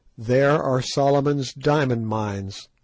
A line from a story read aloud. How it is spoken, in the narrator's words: I said